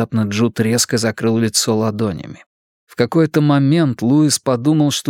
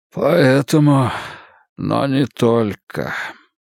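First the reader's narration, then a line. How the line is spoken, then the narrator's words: Strange hoarse voice. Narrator (Russian): сказал он странным, хриплым голосом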